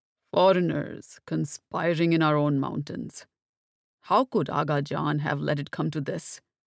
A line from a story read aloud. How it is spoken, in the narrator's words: Saifullah sighed